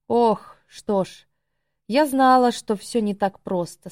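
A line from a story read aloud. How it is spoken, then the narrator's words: Plain. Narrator (Russian): сказала Адрастея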